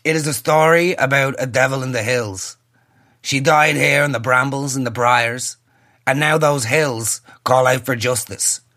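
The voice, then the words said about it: Jim Sheridan voice impression. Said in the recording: “have to do the Jim Sheridan voice ... I find his voice to be remarkably absurd”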